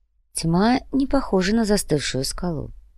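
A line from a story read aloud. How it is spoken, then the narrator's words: Quiet, commissar. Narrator (Russian): негромко произнес комиссар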